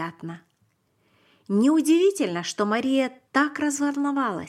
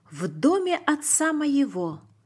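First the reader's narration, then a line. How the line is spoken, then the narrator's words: Plain. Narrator (Russian): сказал он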